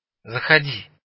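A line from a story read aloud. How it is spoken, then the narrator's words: Calling, slightly choked voice. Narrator (Russian): позвал Семагин еще чуть перехваченным голосом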